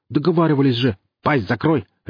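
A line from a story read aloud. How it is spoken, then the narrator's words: Barked. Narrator (Russian): рявкнул Гриф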